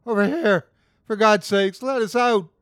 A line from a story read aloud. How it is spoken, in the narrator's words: The sobbing man